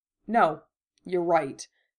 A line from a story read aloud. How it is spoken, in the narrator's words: Harry said stiffly